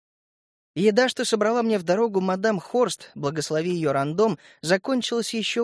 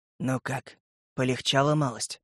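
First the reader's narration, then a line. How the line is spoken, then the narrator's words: Quiet, hoarse voice. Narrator (Russian): Тихий хриплый голос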